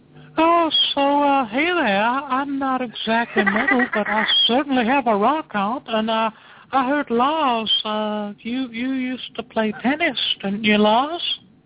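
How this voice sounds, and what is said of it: High-pitched impression of High Pitch Eric. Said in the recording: “impersonation ... that's the best high-pitched Eric I've ever heard in my life. I've never heard high-pitched Eric attempt to be English”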